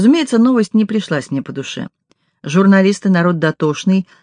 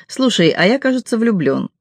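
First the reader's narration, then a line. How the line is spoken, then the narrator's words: Laughing, then speaking. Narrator (Russian): Он опять засмеялся, потом сказал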